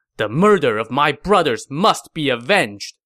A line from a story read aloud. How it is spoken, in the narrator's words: he said angrily